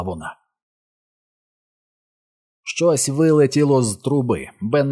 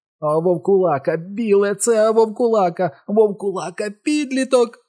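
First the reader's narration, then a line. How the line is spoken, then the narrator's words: Repeated shrieking. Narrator (Ukrainian): верещав знову і знову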